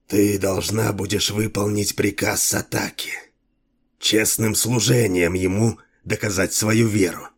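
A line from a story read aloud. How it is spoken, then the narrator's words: Priest's hoarse whisper. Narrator (Russian): Перешел жрец на хриплый шепот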